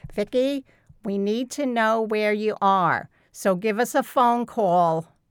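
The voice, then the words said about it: Put-on New York accent, mother's voice. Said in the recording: “broke into that New York accent ... that's my mother ... That's my mother talking.”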